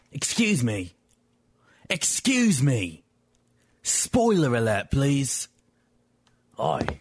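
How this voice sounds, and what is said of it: Put-on British accent. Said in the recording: “much better British accent.”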